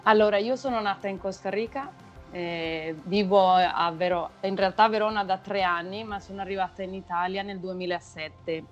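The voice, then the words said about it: Spanish accent speaking Italian. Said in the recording (Italian): “dal tuo accento sento che però tu non hai un accento italiano, parli spagnolo”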